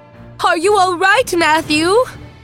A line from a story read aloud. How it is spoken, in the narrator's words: she cried